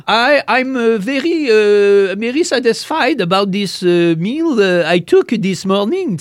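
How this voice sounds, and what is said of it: English with a French accent. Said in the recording (French): “elle parlait en anglais, oui, mais avec un accent comme si c'était française ... Elle parlait en anglais, mais avec l'accent d'une française.”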